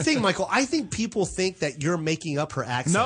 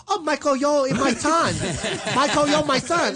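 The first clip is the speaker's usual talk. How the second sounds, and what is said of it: Imitates a mother's thick accent. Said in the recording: “you do it so thick ... her accent got thicker ... My mom's accent is thicker”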